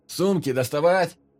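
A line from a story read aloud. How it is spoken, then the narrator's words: Shout. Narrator (Russian): прокричал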